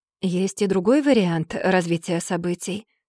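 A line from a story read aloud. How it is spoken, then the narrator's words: Hushed, quiet. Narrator (Russian): сказала я негромко, чтоб не слышал продавец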